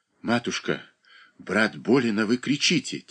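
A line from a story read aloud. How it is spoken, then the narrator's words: Quiet, near tears. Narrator (Russian): тихо произнес Леонид почти со слезами в голосе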